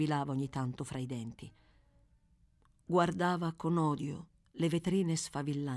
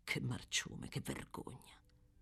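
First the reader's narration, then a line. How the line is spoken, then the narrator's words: Furious, not very quiet. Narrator (Italian): continuava a ripetere furibondo, nemmeno tanto sottovoce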